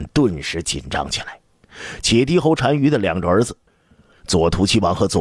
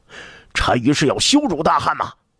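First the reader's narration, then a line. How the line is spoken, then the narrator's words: Shouting in unison. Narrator (Chinese): 使团的随员们 齐声喊道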